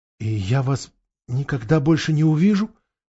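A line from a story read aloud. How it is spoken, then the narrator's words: Trembling voice. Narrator (Russian): дрожащим голосом выговорил Каспиан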